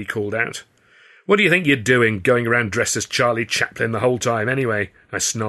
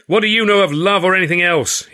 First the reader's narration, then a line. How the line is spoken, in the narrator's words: He screamed, losing his temper completely